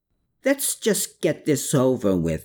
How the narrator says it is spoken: Herman snarled

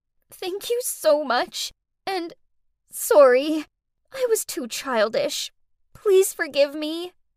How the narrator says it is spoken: through blurry eyes, Faye sobbed out

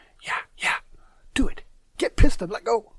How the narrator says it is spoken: one mischievous dude on my right shoulder whispering

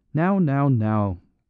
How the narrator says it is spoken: cried the Canadian farmer, with his barbarian benevolence

